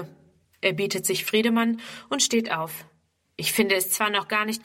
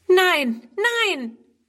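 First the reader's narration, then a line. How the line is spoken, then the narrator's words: Horrified cry. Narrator (German): ruft Friedrun entsetzt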